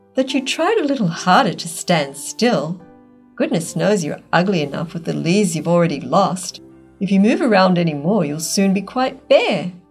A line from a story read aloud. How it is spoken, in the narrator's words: said the fir in a high, smug voice